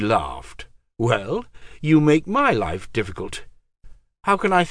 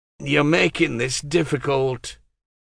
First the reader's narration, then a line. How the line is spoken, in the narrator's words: he groaned